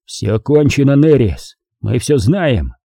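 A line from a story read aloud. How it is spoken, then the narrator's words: Growling. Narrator (Russian): прорычал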